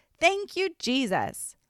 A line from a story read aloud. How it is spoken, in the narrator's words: let's all shout